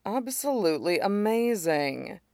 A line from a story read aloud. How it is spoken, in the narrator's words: Tingcha Wen murmured